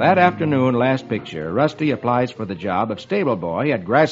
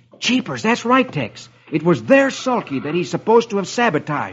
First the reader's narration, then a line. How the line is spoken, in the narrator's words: Rusty exclaims